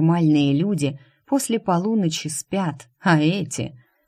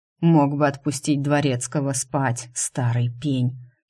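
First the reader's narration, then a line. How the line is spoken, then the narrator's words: Grumbled. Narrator (Russian): проворчал Стриж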